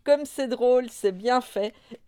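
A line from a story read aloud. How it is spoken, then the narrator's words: Cried out. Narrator (French): s'écria Nini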